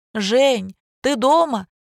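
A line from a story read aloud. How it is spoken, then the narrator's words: Shout into darkness. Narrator (Russian): крикнула Лина в темноту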